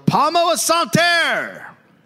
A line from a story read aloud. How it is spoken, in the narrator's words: they yelled